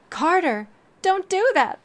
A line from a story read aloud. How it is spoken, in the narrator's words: the sparrow cried out